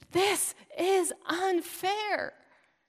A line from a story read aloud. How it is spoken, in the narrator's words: rises up and screams